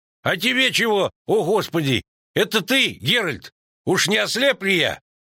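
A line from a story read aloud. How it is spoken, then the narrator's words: Shouting. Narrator (Russian): крикнул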